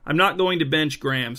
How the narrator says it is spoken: said Coach Virk

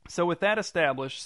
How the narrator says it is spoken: said Waylon

